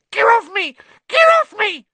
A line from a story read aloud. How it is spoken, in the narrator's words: squealed the gnome